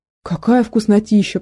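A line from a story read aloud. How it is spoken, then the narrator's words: Pleasured moan. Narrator (Russian): простонал Гошка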